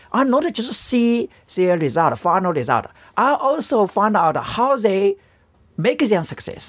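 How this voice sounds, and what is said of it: Non-native English accent. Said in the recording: “Even my English is not very good... correct my accent”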